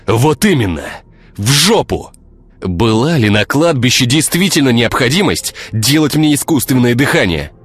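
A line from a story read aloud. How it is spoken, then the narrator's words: Yelling. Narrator (Russian): орал Игорь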